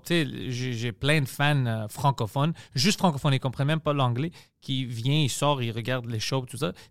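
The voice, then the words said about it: Strong Greek accent in French. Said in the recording (French): “mon accent, mon accent est fucking extrême ... mon accent d'être grec”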